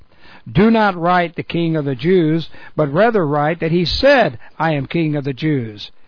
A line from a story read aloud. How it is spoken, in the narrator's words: Pilate answered